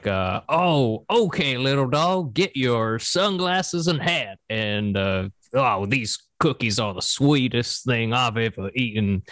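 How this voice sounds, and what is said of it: Cartoon rooster character voice. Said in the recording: “The voice I give him, though, is kind of like, sounds like Foghorn Leghorn.”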